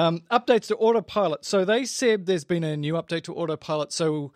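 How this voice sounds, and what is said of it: Usual voice. Nothing is said of it.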